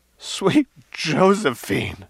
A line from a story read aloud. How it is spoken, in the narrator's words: gasped